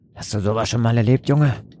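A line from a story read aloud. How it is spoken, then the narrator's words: Sailor grunting. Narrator (German): grunzte einer der Seemänner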